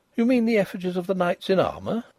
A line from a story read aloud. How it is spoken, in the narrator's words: I said cheerfully